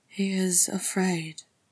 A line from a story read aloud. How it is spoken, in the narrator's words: Arwen sighed